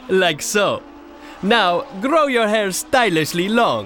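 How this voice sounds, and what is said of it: Vague put-on European accent. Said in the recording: “affect a nebulously European accent.”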